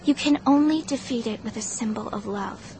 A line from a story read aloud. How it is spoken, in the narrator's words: I muttered